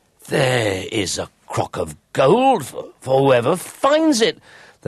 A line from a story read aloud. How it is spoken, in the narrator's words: they cried, so eager were they for the gold